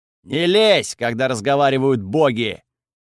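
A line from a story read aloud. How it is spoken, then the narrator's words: Barked. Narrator (Russian): Готфред, рявкнув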